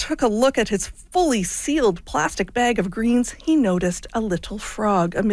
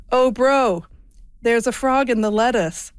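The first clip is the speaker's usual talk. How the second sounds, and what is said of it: Weak put-on Australian accent. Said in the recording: “I'm going to do this in my best Australian accent here ... I really can't do an Australian accent.”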